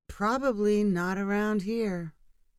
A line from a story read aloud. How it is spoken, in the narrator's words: Clara said with a little sigh